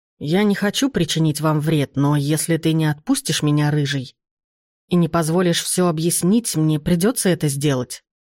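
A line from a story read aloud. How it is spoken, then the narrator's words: Plain. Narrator (Russian): сказал он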